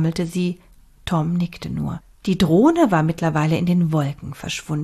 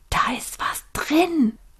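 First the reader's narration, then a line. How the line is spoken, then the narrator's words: Whispering. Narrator (German): wisperte Tom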